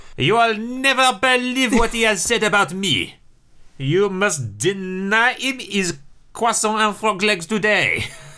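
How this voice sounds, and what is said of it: Put-on French accent. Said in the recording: “I can't do a German name in a French accent.”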